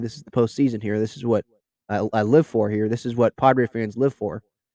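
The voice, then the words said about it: Congested, sick-sounding voice. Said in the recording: “I keep going to my tissues here because I think I have a cold.”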